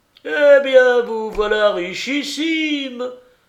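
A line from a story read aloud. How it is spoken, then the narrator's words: Old man's exclamation. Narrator (French): s'écria le vieux Desroches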